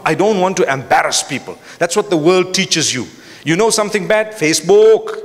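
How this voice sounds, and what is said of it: Speech tinged with Malaysian accent. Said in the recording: “I'm mixing this with a Malaysian accent”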